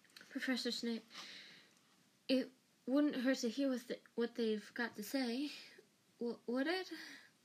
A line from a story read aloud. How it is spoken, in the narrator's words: Hermione said, in a very breathless voice